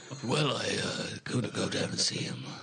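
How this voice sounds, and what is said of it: Imitates another person's voice. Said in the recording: “That was a really good Keanu impression... It was a bit too acty.”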